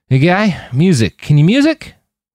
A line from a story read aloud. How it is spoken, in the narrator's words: slurring, and his words were not coming out the way he'd intended